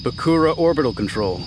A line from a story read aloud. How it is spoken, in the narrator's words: he said solemnly into his comm